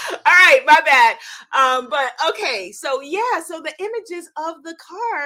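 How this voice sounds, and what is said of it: Usual voice. Nothing is said of it.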